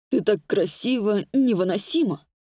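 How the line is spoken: Very hoarse voice. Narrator (Russian): гласит Чернов своим невыносимо хриплым голосом

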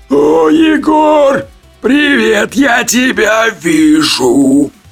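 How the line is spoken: Loud booming. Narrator (Russian): Выдал Бу, довольно громко начав гудеть

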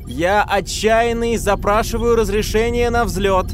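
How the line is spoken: Loud. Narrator (Russian): громко произнес Келли

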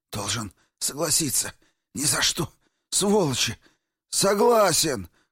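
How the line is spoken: Hoarse, dry-throated. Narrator (Russian): хрипит Обнорский пересохшим горлом

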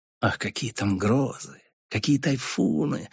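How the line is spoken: Insinuating whisper. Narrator (Russian): вкрадчиво шепнул он

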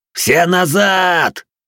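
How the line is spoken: Yelled. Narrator (Russian): заорал я

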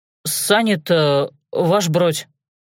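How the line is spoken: Mutter from the doorway. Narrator (Russian): пробормотал от двери приказный извозчик Степанов

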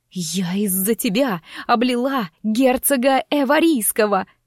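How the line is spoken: Suppressed shriek, lowered voice. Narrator (Russian): Чуть не взвизгнула, но вовремя сдержалась и понизила голос

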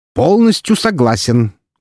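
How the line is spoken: Loud cackling interruption. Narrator (Russian): громко кликотнул Фридрих, врываясь в нашу беседу

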